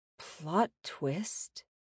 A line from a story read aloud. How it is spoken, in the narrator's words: After the longest pregnant pause in the world, she whispered